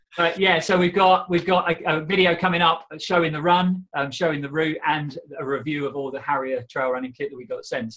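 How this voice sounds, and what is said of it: Croaky, hoarse voice. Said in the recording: “my voice is a bit croaky ... I'm still a bit dehydrated.”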